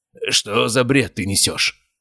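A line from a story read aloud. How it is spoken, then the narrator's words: Spoken through clenched teeth. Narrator (Russian): Процедил сквозь зубы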